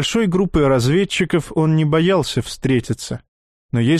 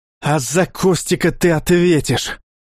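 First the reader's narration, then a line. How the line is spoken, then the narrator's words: Hiss. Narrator (Russian): прошипел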